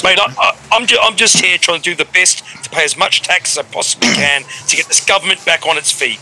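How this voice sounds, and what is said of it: New Zealand accent, sarcastic-sounding. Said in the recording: “that Kiwi accent, mate ... You sound sarcastic when you speak generally”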